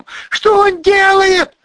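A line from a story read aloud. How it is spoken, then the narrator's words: Shouted. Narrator (Russian): закричала Ольга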